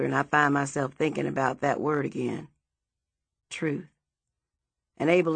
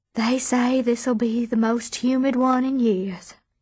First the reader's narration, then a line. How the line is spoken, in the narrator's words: she sighs